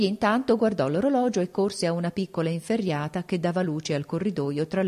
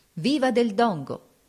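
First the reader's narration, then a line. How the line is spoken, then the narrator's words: Crowd shouting in street. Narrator (Italian): nella strada si diedero a gridare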